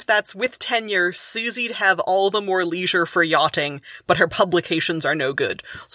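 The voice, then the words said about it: Own accent with caught-cot merger. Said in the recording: “in my accent ... My accent has the caught-caught merger”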